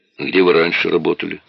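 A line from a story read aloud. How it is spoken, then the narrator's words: Plain. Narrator (Russian): спросил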